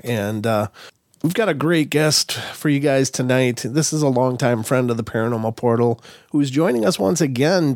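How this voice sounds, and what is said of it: Sick, under-the-weather voice. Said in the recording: “Excuse my voice. I've been under the weather all week.”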